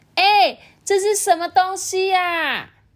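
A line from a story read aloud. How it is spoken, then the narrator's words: Excited, curious calling out. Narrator (Chinese): 这个燕燕呐，很像发现一个秘密般的感觉，就在那边叫说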